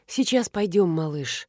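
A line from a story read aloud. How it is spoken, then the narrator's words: Tender. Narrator (Russian): ласково сказала она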